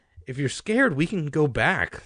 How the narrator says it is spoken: Sari said

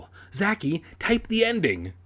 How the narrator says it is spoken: she screamed breathlessly

